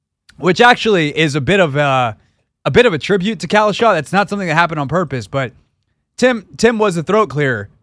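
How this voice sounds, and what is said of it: Choked-up, failing voice. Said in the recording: “my voice is doing the thing again. I'm so choked up ... I'm losing my voice.”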